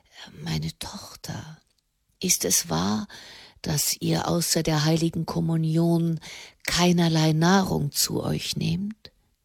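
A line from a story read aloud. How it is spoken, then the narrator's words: Near whisper. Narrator (German): So leise, dass es schon fast ein Flüstern war, sagte er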